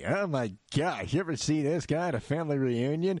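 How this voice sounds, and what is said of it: Imitates another person's voice. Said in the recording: “Celebrity voice impersonated.”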